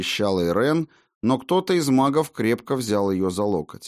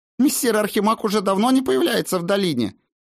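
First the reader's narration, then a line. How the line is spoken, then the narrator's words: Shrill objection. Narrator (Russian): визгливо возразила какая-то волшебница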